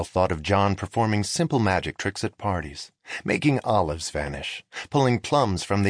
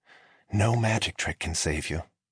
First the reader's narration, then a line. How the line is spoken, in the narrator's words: Dwight whispered